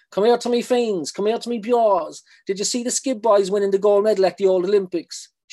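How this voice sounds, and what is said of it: Very strong Cork accent. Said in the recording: “it's in a very strong Cork accent”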